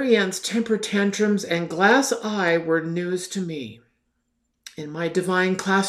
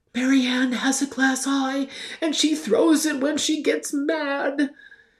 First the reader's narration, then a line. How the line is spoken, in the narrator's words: another child anxiously whispered